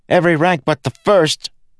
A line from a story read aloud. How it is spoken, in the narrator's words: Kenton shouted back